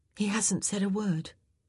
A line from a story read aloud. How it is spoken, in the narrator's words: Penelope said quietly